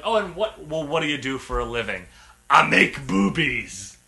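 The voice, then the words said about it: Imitates another person's voice. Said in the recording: “That's actually a pretty good impression of him.”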